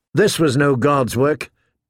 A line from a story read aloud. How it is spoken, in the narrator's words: Danny said coldly